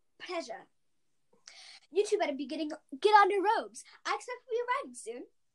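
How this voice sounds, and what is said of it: Imitates Hermione Granger's voice. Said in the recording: “That wasn't my best, but, you know, okay, that's my Hermione impression.”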